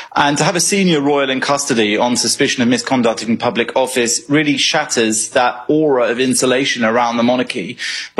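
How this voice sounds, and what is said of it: British accent. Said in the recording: “another Brit ... anybody with a British accent”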